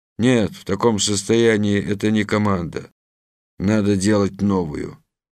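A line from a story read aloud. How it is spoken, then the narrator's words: Muttered under breath. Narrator (Russian): пробурчал себе под нос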